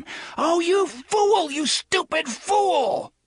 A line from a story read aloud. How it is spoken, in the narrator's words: From a great distance, he heard Alan scream